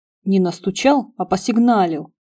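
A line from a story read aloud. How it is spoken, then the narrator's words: Grumbling. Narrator (Russian): проворчал Караваев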